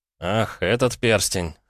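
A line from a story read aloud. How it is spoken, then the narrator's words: Scoffing. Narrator (Russian): хмыкнул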